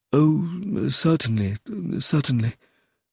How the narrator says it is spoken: in a rather uncertain voice

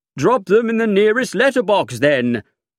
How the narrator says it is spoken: I said cheerfully

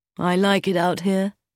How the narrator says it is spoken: said Brian

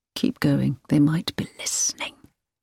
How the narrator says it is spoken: him whisper

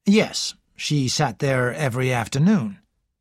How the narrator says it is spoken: said Lennox

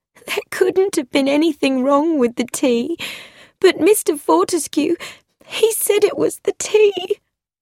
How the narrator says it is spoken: Miss Grosvenor said tearfully

